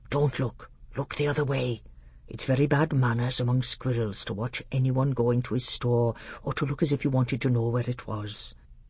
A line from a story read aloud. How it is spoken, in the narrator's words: Truffle Hunter whispered in Caspian's ear